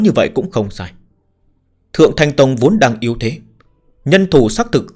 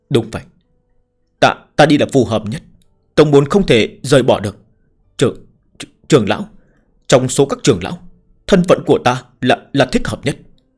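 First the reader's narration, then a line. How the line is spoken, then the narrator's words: Stammering. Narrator (Vietnamese): Ngụy Đa lắp bắp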